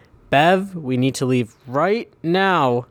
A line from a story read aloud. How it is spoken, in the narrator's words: Terry shouts